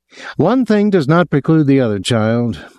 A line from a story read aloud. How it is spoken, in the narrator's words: laughed gently